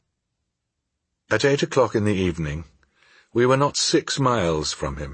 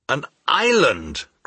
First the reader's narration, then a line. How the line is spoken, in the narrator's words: cried my uncle